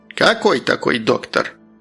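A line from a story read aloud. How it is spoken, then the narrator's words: Old woman grumbling. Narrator (Russian): проворчала старушка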